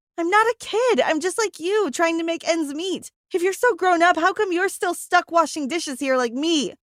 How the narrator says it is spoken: I screamed

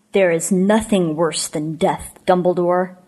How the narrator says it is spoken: snarled Voldemort

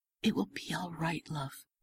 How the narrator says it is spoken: whisper

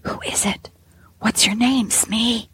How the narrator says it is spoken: the whisper came back

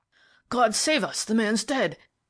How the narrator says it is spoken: exclaimed the inspector in a shocked voice

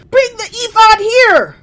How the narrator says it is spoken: Saul shouted to Ahijah

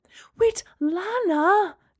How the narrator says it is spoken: Gemma cried

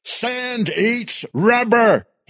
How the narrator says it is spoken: he yelled

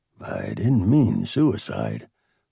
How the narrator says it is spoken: Bob murmured under his breath

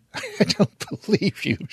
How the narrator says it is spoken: she laughs

